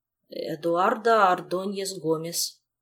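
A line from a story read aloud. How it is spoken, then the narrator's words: Uncertain. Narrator (Russian): он неуверенно произнес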